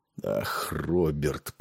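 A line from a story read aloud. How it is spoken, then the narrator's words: Muttered. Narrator (Russian): пробормотал Нед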